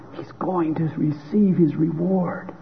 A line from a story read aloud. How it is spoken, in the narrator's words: an observer in the room whispered